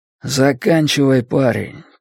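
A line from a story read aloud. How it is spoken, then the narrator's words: Muttering into ear. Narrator (Russian): пробормотал он Люку на ухо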